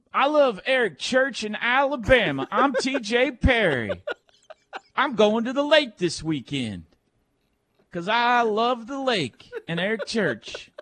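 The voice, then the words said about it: Imitates another person's voice. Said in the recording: “Let's hear your guys' impersonation of each other.”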